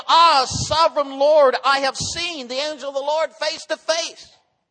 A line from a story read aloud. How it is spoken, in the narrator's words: When Gideon realized that it was the angel of Yahweh, the Lord, he exclaimed